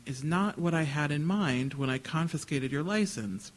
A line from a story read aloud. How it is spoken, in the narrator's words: she said, sighing